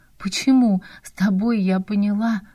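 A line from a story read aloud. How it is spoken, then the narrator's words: Guilty sigh. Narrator (Russian): вздохнула Надя, виновато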